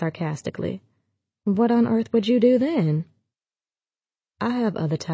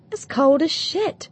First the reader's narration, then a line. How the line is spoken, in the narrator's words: I exclaimed